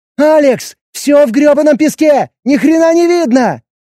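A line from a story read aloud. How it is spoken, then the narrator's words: Shouting. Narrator (Russian): Прокричала Эбби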